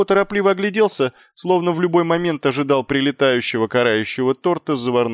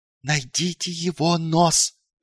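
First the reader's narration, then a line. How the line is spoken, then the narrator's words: Hissed. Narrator (Russian): прошипел он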